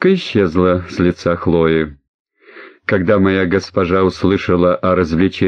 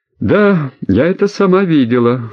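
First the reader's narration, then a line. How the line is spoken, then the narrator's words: Calm girl's answer. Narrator (Russian): спокойно ответила девушка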